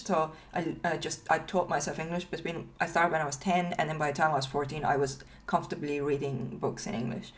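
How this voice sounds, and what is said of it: Non-native English accent. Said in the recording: “I still have a I have an accent”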